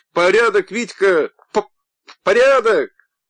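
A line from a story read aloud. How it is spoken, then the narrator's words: Laughing, stuttering shouts. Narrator (Russian): Он хохотал, с трудом справляясь с заиканием, выкрикивал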